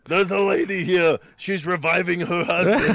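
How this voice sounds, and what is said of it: Arnold Schwarzenegger impression. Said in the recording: “Arnold. ... Arnold Schwarzenegger, everybody.”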